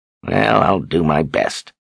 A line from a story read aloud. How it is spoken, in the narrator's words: Zed grumbled